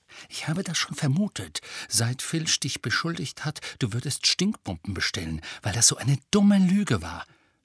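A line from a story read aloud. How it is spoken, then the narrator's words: Whisper. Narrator (German): flüsterte Hermine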